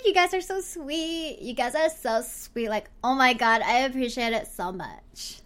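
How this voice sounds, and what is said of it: Exaggerated Valley Girl voice. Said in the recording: “do the Valley Girl voice ... The Valley Girl inside me built up and it's coming out. It's coming out today.”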